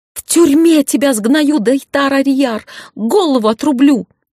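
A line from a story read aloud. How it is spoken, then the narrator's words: Witch's screaming. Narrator (Russian): Орала ведьма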